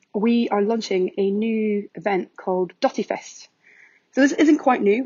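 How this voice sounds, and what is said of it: Strong Scottish accent. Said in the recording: “my very Scottish accent”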